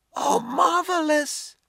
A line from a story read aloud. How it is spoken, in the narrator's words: the shorter Chinese, Wan Chang, cried out in elation